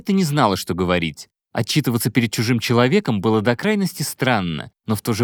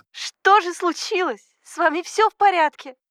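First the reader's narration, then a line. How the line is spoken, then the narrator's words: Loud sobbing. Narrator (Russian): Она громко всхлипнула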